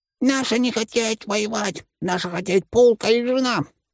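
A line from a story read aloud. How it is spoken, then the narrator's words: Shrill squeal. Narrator (Russian): пронзительно завизжал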